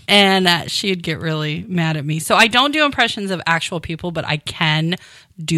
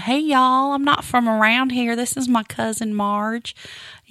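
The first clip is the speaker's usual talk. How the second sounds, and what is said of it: Put-on Southern American accent. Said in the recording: “I would create an accent. I'd be Southern.”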